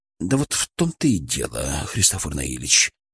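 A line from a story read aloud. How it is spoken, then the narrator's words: Quiet. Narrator (Russian): произнес он тихо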